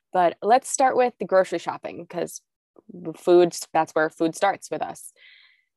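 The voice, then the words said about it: Slightly nasal, congested voice. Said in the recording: “I'm sure you can hear it in my voice. I'm a little nasally. ... I have a little bit of a cold”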